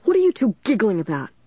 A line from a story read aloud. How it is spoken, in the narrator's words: he demanded angrily